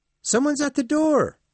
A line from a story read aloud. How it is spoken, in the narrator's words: one of the children shouted excitedly